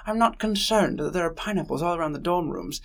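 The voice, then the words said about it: Speaks in a put-on accent. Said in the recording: “I'm using an accent now.”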